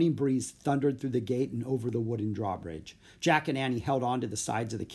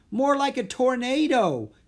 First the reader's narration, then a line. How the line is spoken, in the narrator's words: Jack yelled